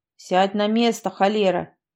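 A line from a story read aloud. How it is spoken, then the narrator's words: Old man's bark. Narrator (Russian): гаркнул старик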